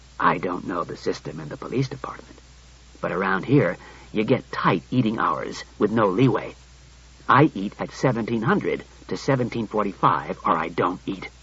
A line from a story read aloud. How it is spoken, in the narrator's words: He said coolly